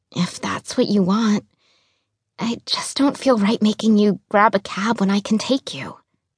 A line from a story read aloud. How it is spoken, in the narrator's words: I whispered